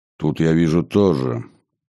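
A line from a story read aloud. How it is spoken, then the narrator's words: Gloomy remark. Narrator (Russian): мрачно заметил архиепископ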